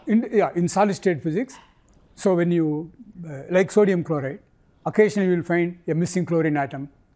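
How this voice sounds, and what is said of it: Accented English. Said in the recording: “Sorry for my bad accent.”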